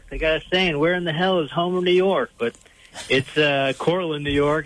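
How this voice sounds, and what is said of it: Slight Southern drawl accent. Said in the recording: “I could hear an accent ... the kind of Southern drawl”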